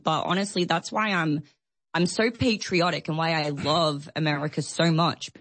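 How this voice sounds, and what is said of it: Australian-American blended accent. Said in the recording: “I hear the accent. I'm not exactly sure where you're from. Is it Australian? ... It's a bit of a weird blend.”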